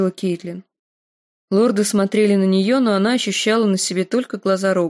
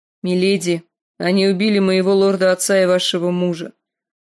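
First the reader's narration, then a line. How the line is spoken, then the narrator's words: Grim. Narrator (Russian): мрачно сказал он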